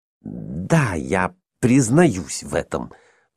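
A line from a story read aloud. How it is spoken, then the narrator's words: Scoundrel mumbling. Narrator (Russian): пробормотал негодяй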